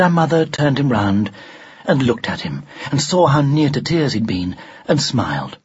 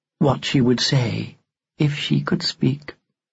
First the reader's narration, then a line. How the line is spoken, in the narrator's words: she murmured